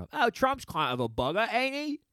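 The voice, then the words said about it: Put-on Cockney British accent. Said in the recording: “take it down with the British thing ... I think I'm doing a Cockney accent”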